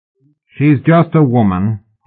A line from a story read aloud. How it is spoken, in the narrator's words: he said, quite loudly and calmly